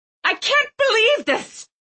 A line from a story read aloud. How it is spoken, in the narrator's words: Mom shrieked